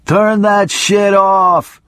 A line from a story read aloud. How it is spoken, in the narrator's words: screamed my attorney